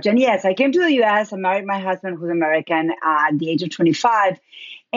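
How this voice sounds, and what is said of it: Argentine Spanish accent. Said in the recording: “I'm originally from Argentina. That's where my accent is. Spanish is my first language.”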